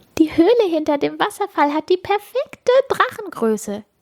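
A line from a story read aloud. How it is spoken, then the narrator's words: Giggling voices. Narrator (German): kichern sie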